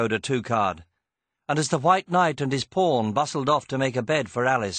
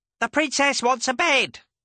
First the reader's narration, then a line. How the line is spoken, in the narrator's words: a nearby Gwynook shouted